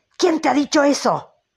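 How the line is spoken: Shouted. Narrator (Spanish): gritó Ahab

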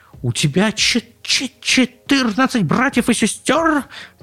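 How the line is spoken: Tiny squeak. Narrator (Russian): пропищал комочек

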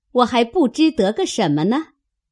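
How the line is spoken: Laughing. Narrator (Chinese): 探春笑道

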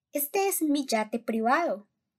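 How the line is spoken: Delighted exclamation. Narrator (Spanish): exclamó el señor Wonka, sonriendo de placer

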